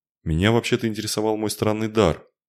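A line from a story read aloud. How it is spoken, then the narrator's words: Sullen, forced out. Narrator (Russian): хмуро выдавил принц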